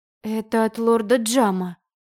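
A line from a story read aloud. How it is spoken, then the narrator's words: Confused mumble. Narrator (Russian): растерянно пробормотала я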